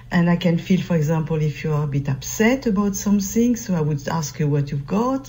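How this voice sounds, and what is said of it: French accent. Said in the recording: “French. ... It's French.”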